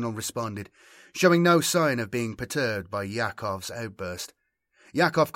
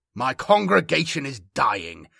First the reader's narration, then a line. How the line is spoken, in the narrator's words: barked Yakov